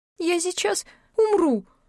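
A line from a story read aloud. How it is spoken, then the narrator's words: Weak exhausted squeak. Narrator (Russian): пропищала Эбби из последних сил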